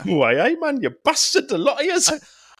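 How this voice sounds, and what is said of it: Put-on Geordie accent. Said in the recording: “like in a Geordie accent”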